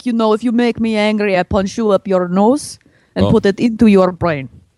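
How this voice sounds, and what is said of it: Put-on Russian accent. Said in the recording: “it's not too difficult for me to go to, like, a Russian or something”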